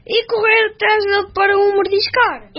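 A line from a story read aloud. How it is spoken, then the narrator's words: Wolf pleading. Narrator (Portuguese): implorou o lobo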